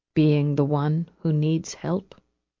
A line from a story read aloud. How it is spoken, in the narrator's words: said quietly